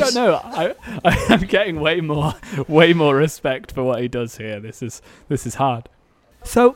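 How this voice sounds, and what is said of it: Usual voice. Nothing is said of it.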